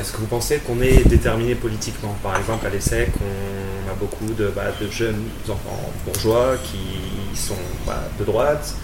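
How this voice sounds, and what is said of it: Southwestern French regional accent. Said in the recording (French): “tu as un accent en tout cas de, de, de province. du sud-ouest, non ... Du sud-ouest”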